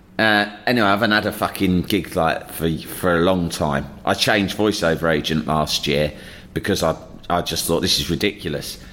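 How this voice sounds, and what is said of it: London accent, male voice. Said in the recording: “with a London sounding accent ... London, male, white”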